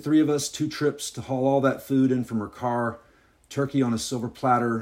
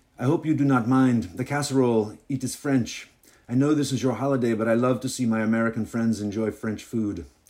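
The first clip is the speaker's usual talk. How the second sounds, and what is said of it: Exaggerated put-on French accent. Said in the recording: “this is my French accent. This is my Rube from Alabama French accent. ... Her accent seemed somehow even thicker than before.”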